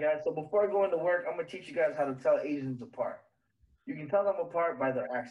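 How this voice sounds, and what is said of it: Usual voice. Nothing is said of it.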